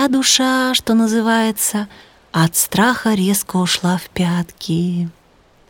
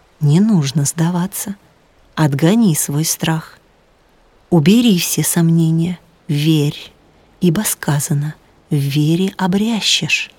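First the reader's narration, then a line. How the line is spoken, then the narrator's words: Calm reply. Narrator (Russian): сенсей спокойно ответил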